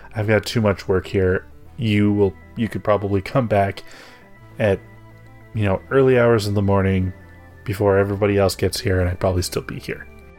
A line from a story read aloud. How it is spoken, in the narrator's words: she just chuckles and she's like